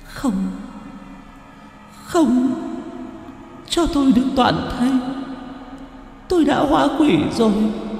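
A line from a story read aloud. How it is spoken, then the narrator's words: Girl sobbing harder. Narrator (Vietnamese): Cô gái nghe vậy lại càng nức nở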